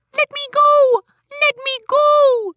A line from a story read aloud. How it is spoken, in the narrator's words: the leprechaun shouted